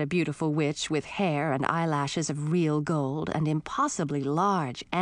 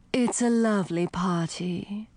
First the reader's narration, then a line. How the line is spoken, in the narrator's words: she added in a deep, throaty voice